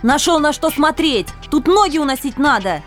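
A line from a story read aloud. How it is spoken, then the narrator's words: Angry yelling. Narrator (Russian): рассерженно заорала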